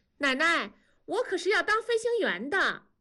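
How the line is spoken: Loud. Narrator (Chinese): 南方在屋里大声地说

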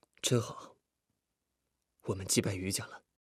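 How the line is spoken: Quiet, laughing voice. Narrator (Chinese): 李富贵不知不觉的也笑了出来，低声说

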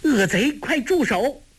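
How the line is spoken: Shouting. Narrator (Chinese): 李平大叫

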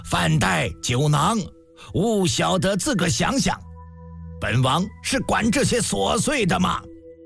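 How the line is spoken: Angry bellowing. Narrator (Chinese): 总是一通大吼

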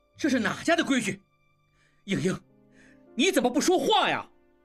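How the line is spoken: Furious shout. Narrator (Chinese): 应季怒极了，对应英大叫

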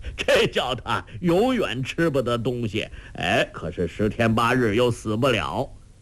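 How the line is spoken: Laughing. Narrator (Chinese): 周伯通笑道

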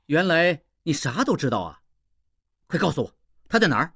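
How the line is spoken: Laughing. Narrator (Chinese): 应季，笑道

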